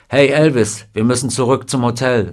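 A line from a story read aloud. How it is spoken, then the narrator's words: Plain. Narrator (German): sagte Junior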